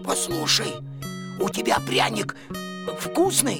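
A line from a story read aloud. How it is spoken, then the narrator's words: Hoarse. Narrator (Russian): Костя прохрипел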